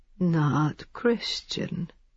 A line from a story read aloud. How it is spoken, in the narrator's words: he said gently